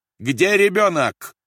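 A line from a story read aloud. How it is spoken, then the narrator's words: Shouted. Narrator (Russian): закричал Рольф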